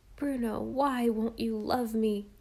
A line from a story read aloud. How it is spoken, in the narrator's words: almost sobbed Jem